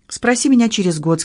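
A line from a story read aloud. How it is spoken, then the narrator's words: Plain. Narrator (Russian): сказал Генри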